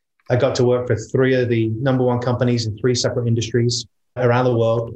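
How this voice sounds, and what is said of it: British UK accent. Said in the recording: “this is not a Texan accent. You can hear definitely a UK accent.”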